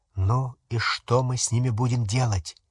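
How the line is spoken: Quiet whisper. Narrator (Russian): тихо прошептал в темноте Рон

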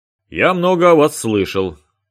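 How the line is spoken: Loud, as to an audience. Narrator (Russian): сообщил Басенко, очень громко выговаривая слова, словно адресовался к большой аудитории

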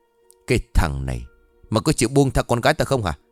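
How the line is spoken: Harsh shout. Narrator (Vietnamese): gần giọng quát

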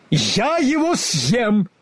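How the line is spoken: Furious lion's bark. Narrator (Russian): Лев ужасно разгневался и рявкнул

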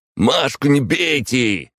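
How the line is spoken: Shouted out. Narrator (Russian): выкрикнул Миша

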